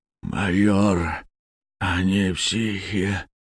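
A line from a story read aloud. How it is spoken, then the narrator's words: Hoarse, gurgling, parched voice. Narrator (Russian): Голос его был хриплый, булькающий, как у человека, у которого пересохло горло и треснула губа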